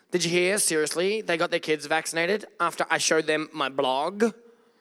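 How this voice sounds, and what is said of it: Valley girl accent. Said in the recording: “Just channeling my best Valley girl accent. Or is it Valley guy?”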